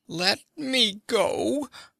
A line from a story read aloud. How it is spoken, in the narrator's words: the man whined